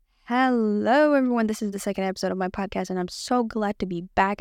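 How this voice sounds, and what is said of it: Talking very fast. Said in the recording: “I'm talking so fast.”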